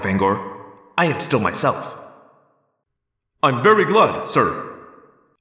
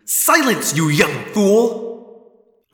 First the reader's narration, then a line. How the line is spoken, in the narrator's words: Alaron snapped angrily